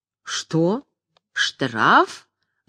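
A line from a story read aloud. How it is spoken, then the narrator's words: Menacing repetition. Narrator (Russian): грозно повторила Орлеанская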